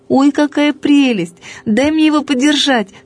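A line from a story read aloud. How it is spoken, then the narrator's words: Cried out. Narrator (Russian): вскрикнула я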